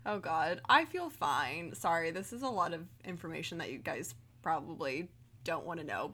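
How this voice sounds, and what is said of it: Slightly odd post-surgery voice. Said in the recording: “my voice sounds a little bit weird just because I'm still in recovery”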